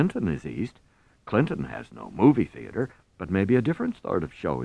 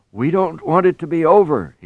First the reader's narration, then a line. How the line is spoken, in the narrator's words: he cries, his face creased with merriment